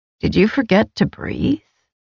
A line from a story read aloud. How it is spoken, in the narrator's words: the primal asked softly